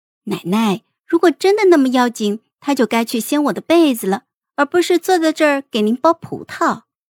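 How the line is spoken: Leisurely, smiling, mouth full. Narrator (Chinese): 孟婉婉叼着虾饺，笑弯了眸子，悠哉的说道

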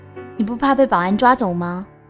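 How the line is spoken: Loud. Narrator (Chinese): 我也只好冲他大声地说

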